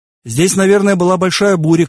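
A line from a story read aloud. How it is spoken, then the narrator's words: Shouted. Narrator (Russian): крикнул я Тану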